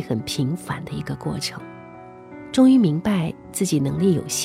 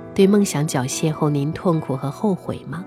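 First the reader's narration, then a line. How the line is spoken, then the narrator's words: Smiling. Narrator (Chinese): 父亲笑了笑说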